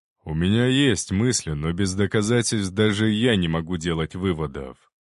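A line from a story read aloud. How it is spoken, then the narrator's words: Plain. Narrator (Russian): ответил император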